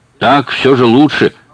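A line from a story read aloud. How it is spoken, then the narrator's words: Loud. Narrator (Russian): громко сказала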